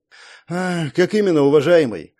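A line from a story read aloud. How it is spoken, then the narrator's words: Sighing. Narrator (Russian): Вздохнул я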